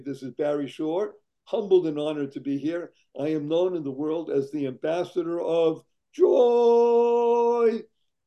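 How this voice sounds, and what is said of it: Hoarse voice. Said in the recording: “in addition to my hoarse voice”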